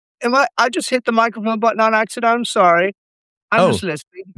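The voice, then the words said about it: Put-on British accent. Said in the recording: “I'm trying to do a British accent because I don't want my actual voice on the internet”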